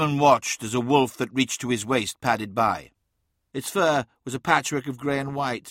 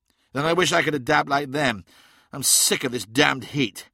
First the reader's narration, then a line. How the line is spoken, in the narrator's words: said Phocis Takar angrily